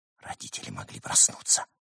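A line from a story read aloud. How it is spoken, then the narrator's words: Whisper. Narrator (Russian): перешел он на шепот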